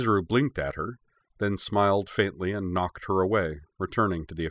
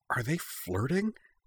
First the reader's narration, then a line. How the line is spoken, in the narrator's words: Arika stage whispered